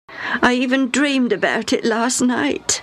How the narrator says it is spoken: Hammy said sadly

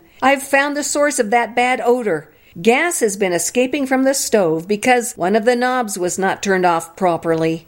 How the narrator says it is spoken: he called out to me from the kitchen

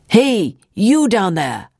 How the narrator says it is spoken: a man's voice yell

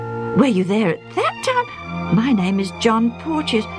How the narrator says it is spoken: the younger man exclaimed in turn

